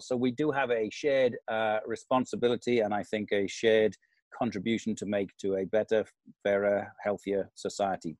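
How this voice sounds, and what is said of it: Welsh accent. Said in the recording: “not a Welsh accent for a change”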